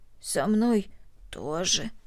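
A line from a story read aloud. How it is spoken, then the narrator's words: Hoarse. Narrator (Russian): хрипло ответила Корнели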